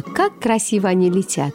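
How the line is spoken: Laughing speech. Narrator (Russian): а она, смеясь, говорила

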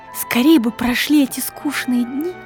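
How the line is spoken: Whispered. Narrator (Russian): шептала Нина

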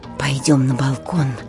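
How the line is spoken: Whisper. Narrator (Russian): шепнула Сашенька Батюне

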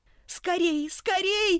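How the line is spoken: Urgent frightened shout. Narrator (Russian): закричала им Каридат, так как слышала, что великан ощупью подбирается к ней

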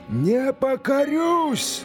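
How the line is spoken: Menacing shout. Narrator (Russian): закричал казак грозно

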